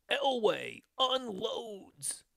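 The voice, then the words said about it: Imitates a sportscaster's play-by-play voice. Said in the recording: “do a Marv Albert impression”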